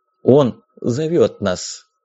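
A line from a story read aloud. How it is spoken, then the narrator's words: Solemn fanatical voice. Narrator (Russian): торжественным голосом сказал, взглядом фанатика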